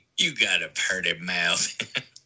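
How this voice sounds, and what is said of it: Put-on Kentucky accent. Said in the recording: “I don't actually talk like that. West Virginians don't speak that way. That was my Kentuckian accent ... that's how I imagine people talking in pig-headed horror movies”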